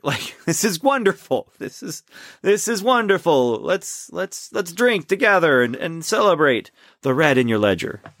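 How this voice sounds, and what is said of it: Poor put-on Russian accent. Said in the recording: “I'm doing a terrible Russian accent”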